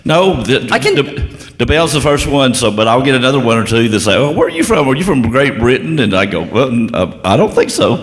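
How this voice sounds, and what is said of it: Slight British accent. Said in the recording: “I can hear this little British accent... it's very nice”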